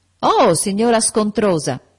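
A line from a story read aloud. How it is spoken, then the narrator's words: Shouted. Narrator (Italian): gridò John Reed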